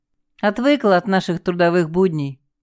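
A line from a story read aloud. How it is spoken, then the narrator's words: Short laugh. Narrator (Russian): хохотнул Валерка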